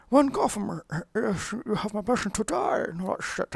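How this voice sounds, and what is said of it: Muffled, accented villain voice through mask. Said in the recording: “It sounds like a bad Sean Connery impression done through false teeth, speaking through the fucking mask”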